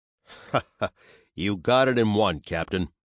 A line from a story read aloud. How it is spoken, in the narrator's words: said with a chuckle